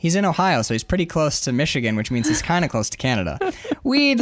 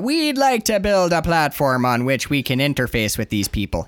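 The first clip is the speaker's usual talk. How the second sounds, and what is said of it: Put-on Canadian accent. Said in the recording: “He's Canadian. ... He was Irish at first ... my Irish Canadian. My accent has slid into into Canadian.”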